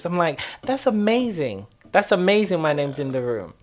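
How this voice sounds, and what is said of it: Sarcastic delivery. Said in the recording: “I'm being sarcastic”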